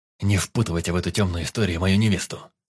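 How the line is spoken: Hissed. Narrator (Russian): прошипел он

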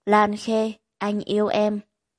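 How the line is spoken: Hoarse whisper. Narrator (Vietnamese): Yến Thần mới khàn giọng thì thầm nói

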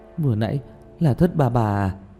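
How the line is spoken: Sighing question. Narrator (Vietnamese): Tiểu Mã thở dài một hơi, hỏi Diệp Thiếu Dương

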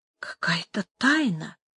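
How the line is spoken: Whisper. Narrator (Russian): прошептала Дукеза

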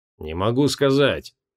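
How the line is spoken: Mumbled. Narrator (Russian): промямлил Асанте

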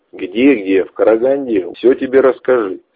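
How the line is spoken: Laughing. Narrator (Russian): смеясь ответил я

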